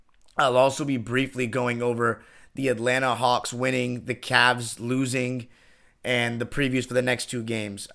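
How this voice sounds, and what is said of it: Tired-sounding voice. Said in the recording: “I'm a little bit tired. If you can hear it in my voice”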